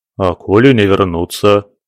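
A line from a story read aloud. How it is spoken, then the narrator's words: Worried sigh. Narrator (Russian): озабоченно вздохнул сердобольный попик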